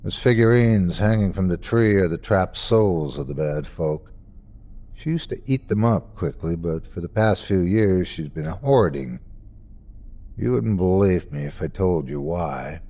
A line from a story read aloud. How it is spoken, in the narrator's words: He sighed then, said matter-of-factly